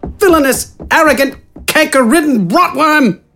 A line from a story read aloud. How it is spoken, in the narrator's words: Wither yelled